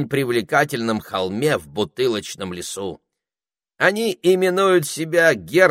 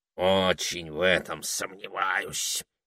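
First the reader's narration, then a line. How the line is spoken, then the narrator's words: Gloomy grumbling parrot. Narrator (Russian): мрачно пробурчал попугай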